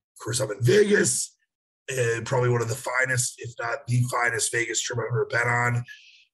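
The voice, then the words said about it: Slightly hoarse voice. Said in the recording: “apologize for my voice being a little hoarse.”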